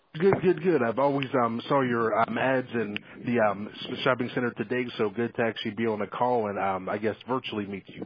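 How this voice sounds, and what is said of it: Noticeable non-Ohio accent. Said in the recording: “You have a great accent ... That doesn't sound like you are”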